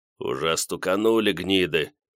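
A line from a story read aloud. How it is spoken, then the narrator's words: Annoyed mutter. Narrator (Russian): раздосадованно пробормотал Борис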